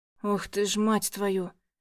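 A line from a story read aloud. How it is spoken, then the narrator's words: Hoarse. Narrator (Russian): Хриплю я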